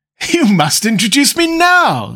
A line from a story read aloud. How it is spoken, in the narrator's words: said Lord Henry, laughing